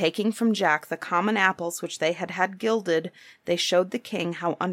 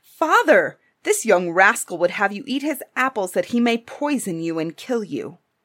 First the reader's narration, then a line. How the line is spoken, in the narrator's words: they cried out